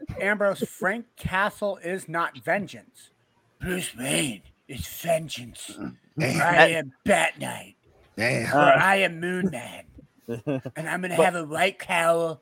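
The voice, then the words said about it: Batman voice impression. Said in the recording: “Why are you speaking like Donald Trump? ... I'm doing the Pete Holmes impersonation of Batman.”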